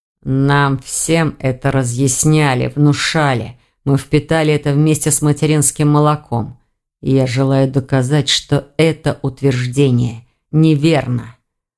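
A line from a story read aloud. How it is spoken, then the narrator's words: Through gritted teeth. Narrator (Russian): процедил сквозь зубы мужчина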